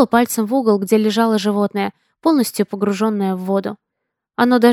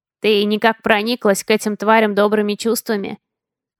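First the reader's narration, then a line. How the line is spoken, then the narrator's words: Snort. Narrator (Russian): Хмыкнул Жок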